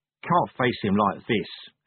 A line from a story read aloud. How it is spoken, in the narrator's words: he murmured